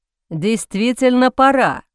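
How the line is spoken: Booming male voice. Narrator (Russian): прогремел мужской голос

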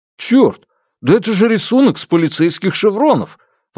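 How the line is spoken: Exclamation. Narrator (Russian): воскликнул Дабао

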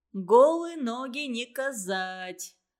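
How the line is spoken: Laughing. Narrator (Russian): засмеялся Санька

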